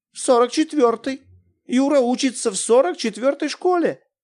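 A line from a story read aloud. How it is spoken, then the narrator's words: Confused, flustered. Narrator (Russian): растерянно сказала она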